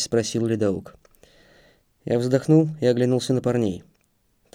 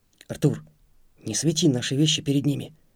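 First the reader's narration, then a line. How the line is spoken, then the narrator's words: Whisper. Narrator (Russian): шепнул Антон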